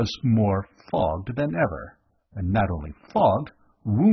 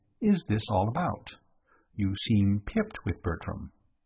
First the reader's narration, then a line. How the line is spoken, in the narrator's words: I said gently